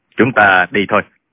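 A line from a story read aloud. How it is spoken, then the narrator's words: Calm cold speech. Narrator (Vietnamese): Tạ Tốn thản nhiên lạnh lùng nói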